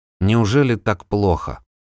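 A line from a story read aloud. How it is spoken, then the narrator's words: Dejected question. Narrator (Russian): упавшим голосом спросил Вильям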